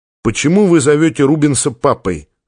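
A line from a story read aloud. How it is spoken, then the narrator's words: Plain. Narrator (Russian): спросил Артур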